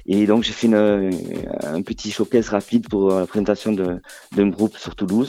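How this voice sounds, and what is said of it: Southern French accent. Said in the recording (French): “Ça s'entend pas ... les gens de Marseille ont un peu le même accent que toi”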